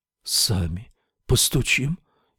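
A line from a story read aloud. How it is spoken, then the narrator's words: Barely audible reply. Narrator (Russian): еле слышно отозвался Сет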